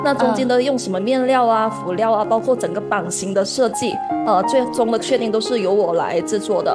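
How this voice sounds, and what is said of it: Chaoshan-accented Mandarin. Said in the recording (Chinese): “口音问题吗？会有很明显吗？ ... 其实潮汕口音它会有点平舌音跟卷舌音部分，前后鼻音部分”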